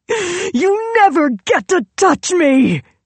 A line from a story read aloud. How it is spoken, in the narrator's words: She howled